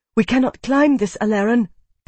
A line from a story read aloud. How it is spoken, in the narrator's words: panted Kitai